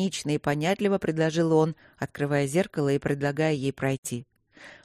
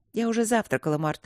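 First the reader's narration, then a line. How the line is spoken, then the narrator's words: Calm reply. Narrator (Russian): ответила она спокойно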